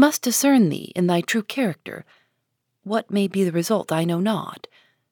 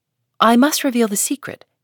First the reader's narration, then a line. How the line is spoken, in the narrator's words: answered Hester firmly